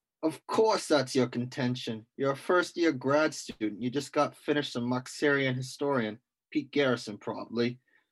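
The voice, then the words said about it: Mixed put-on accents, British, gangster. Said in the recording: “it turned a little British at the end ... I feel like I turned into a bit of a gangster there ... there's a couple different accents there”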